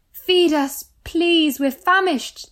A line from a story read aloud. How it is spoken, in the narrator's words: begged